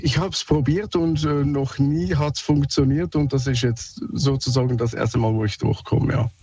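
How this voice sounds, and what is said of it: Swiss German accent. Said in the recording (German): “Sorry, mein Akzent, ich bin Schweizer.”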